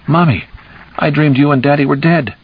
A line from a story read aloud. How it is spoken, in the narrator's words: she had cried